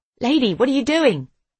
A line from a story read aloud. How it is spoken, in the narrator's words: he shouts